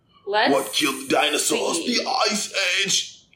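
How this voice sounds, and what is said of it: Poor movie-star impression, sounds British. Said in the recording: “That was a horrible impression. ... So I get the Arnold Schwarzenegger voice like maybe once or twice a year. ... That was a British voice.”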